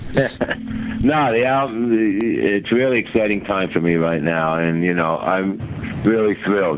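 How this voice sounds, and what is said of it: Gravelly voice, New York accent. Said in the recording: “gravelly tone... It's raw... a little bit of New Jersey in there... you sound like you have almost a Queens accent”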